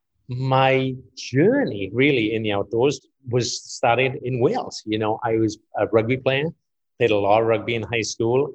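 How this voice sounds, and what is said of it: Welsh accent. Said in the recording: “as you can likely tell, and I have a bit of an accent, so I'm not local. I'm from Wales”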